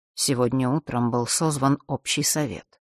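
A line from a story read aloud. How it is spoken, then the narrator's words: Quiet. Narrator (Russian): тихо произнесла госпожа Делш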